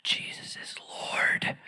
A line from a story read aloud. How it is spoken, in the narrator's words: get up enough courage to just whisper it